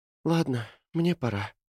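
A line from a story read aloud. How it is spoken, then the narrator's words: Sighing. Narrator (Russian): вздохнула Кэти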